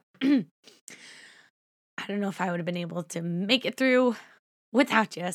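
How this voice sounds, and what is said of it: Choked-up, tearful voice. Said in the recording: “getting choked up ... before I start crying”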